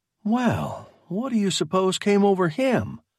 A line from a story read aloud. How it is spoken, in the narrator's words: Berger gasped